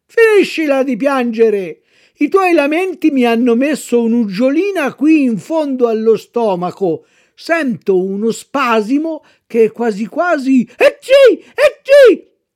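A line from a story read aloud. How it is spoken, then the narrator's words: Puppeteer's gruff shout after sneezing. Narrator (Italian): Dopo aver starnutito, il burattinaio, seguitando a fare il burbero, gridò a Pinocchio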